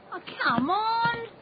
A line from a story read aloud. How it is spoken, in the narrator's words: Someone yelled out